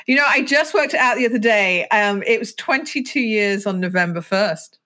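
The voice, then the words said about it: Accent familiar to a British listener. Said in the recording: “it's a very familiar accent, but you're actually on the other side of the pond to me”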